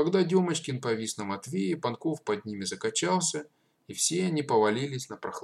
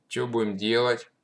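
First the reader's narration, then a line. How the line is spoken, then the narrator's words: Gloomy question. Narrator (Russian): мрачно спросил Панков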